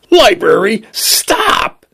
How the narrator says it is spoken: he screamed

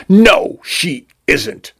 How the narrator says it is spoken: Vacuole spat

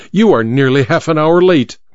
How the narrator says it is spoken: he said curtly

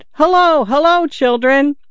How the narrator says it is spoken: He shouted

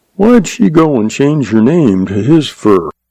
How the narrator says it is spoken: The young man sighed

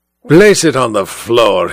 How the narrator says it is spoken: he growled

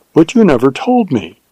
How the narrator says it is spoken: she exclaimed with wonder and reproach

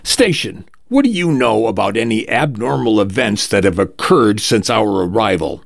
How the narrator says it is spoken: A tall, thin woman barks

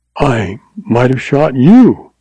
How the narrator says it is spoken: she exclaimed

